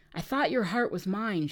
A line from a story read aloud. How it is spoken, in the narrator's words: she said